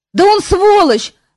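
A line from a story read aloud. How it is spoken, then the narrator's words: Roar. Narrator (Russian): взревел Кантор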